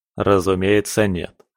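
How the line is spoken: Laughing. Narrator (Russian): рассмеялся Роберт

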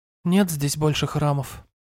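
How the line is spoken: Calm, sighing reply. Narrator (Russian): спокойно ответила она и вздохнула

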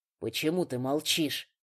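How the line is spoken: Hurt, choked-out words. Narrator (Russian): сквозь ком обиды, застывший в горле, выдавил Фрай

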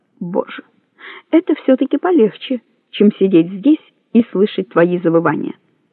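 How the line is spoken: Muttering under breath. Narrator (Russian): бормоча себе под нос

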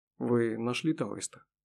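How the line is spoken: Plain. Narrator (Russian): спросил он

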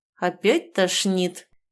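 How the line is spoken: Through gritted teeth. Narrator (Russian): сквозь зубы процедил канцлер

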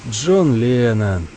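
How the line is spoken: Muttering. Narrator (Russian): бормочет Йован

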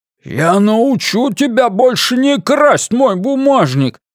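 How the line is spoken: Roaring in someone's face. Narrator (Russian): проревел Блейз в лицо мужчине

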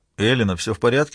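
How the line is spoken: Plain. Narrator (Russian): спросил

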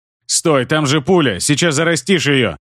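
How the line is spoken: Growled in pain. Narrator (Russian): Прорычал я, морщась от боли

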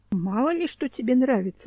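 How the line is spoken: Sighed. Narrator (Russian): вздохнул Семен

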